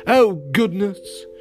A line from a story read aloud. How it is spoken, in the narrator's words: exclaimed